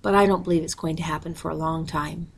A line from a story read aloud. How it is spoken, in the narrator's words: said calmly